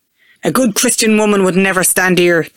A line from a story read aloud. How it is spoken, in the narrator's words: they shout